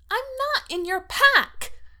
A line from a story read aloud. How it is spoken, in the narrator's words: she says furiously